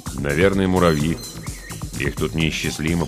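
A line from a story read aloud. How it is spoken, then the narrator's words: Mumbling. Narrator (Russian): пробормотал Холрой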